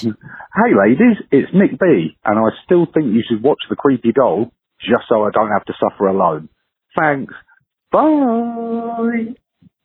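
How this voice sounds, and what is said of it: Accent from across the pond. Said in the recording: “That accent, I love him ... all the way from across the pond”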